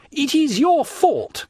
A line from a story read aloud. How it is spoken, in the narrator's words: cried Morcerf